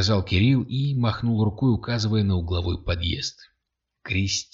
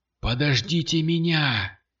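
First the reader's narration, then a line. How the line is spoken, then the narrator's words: Shout. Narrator (Russian): крикнул Кирилл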